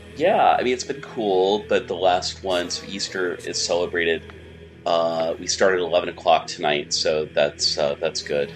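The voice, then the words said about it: Scratchy, hoarse voice. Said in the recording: “my voice is a little scratchy and Courtney Love-ish, it's I've been basically chanting since like Saturday”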